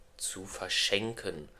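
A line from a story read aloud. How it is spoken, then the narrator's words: Absent-minded murmur. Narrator (German): murmelte er gedankenverloren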